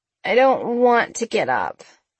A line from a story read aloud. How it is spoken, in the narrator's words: Sabrina groaned